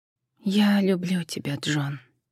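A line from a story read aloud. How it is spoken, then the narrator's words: Quiet farewell. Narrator (Russian): так же тихо попрощалась она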